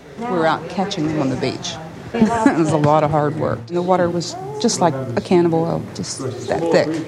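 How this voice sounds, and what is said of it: Louisiana accent. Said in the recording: “if you heard the accent there, you know, some of that cleanup crew came from Louisiana”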